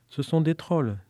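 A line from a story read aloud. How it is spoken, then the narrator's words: Plain. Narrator (French): dit-elle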